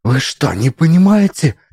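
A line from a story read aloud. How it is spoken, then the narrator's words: Near hiss. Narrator (Russian): почти зашипела Алиса, ее глаза панически бегали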